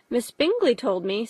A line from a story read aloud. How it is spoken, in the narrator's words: said Jane